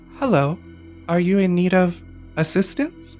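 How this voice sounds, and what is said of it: Small high child's voice. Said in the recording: “a small, high voice”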